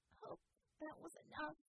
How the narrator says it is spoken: Bella croaked, as her legs gave out

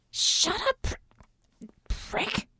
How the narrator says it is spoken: Ramona hissed

